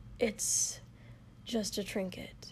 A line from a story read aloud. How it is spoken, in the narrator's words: muttered